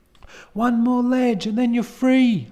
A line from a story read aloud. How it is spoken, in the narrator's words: yell to him